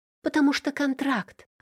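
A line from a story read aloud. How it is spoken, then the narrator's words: Exclamation. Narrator (Russian): воскликнула я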